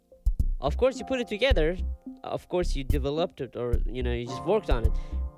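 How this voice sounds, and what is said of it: Non-native accented English. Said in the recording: “sorry for my pronunciation and accent ... I'm still insecure for my accent”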